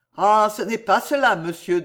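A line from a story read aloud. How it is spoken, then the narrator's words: Young man, deep sigh. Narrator (French): dit le jeune homme avec un profond soupir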